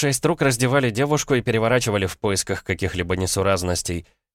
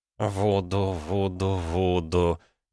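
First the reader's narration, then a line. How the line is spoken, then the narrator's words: Muttering under breath. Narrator (Russian): бормотал себе под нос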